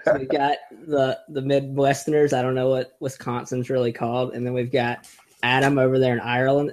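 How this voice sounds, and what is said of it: North Carolina Southern twang. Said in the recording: “I'm from North Carolina, so I just wanted to bring some twang to the podcast ... We needed some twang.”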